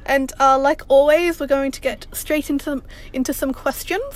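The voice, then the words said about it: Put-on British accent. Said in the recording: “Stop your British accent!”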